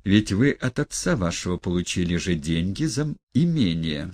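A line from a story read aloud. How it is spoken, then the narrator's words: Calm remark. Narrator (Russian): спокойно заметил Николай Всеволодович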